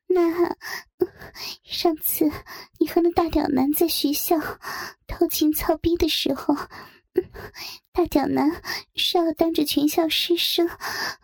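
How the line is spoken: Breathless question. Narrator (Chinese): 小月喘息着又问道

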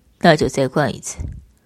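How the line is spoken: Cool, dark flat tone. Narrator (Chinese): 方天宇眸色阴暗，淡淡开口

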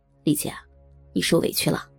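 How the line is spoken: Quiet, soft. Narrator (Chinese): 七哥小声的对我说

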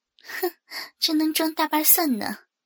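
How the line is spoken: Sneering inner thought. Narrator (Chinese): 冷笑了一下，心里说

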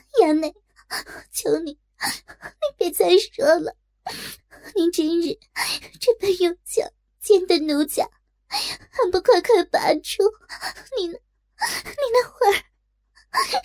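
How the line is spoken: Sobbing in pain. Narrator (Chinese): 痛哭道

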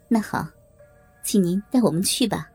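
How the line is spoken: Polite, faint smile. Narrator (Chinese): 妙芳姐淡淡一笑 礼貌的说道

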